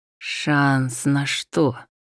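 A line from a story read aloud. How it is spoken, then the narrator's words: Barely audible hiss. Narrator (Russian): едва слышно прошипел Мутчина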